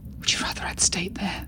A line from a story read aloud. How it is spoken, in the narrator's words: Silas snarled